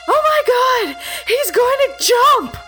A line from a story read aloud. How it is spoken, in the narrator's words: somebody scream